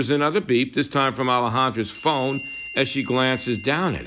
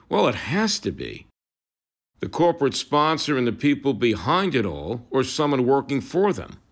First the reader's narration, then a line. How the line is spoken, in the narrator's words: Scott says grimly